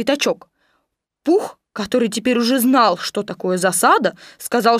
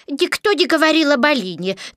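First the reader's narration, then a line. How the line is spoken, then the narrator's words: Rather angry owl. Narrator (Russian): довольно сердито сказала сова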